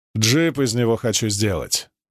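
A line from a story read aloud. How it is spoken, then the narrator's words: Very serious tone. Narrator (Russian): пояснил мордовский папа самым серьезным тоном, исключающим любые насмешки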